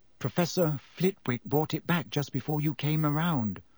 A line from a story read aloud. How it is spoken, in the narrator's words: said Hermione in a very small voice